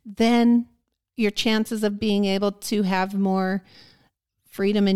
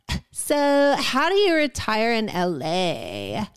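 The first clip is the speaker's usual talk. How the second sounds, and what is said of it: Put-on Southern California accent. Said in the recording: “I'm going to use a different accent for that ... another shitty Southern California accent”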